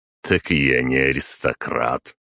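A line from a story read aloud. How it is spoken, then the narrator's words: Snorting. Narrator (Russian): хмыкнул я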